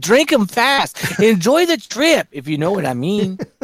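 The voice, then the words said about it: Put-on Mexican accent. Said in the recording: “I gave him a Mexican accent.”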